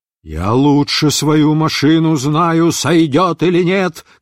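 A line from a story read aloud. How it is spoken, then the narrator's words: Shouted. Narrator (Russian): крикнул летчик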